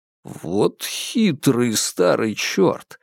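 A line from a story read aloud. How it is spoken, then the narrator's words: Admiring mutter. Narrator (Russian): восхищённо пробормотал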